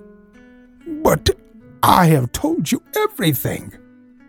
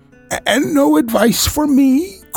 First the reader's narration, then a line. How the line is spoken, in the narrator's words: cried Blessington in a breaking voice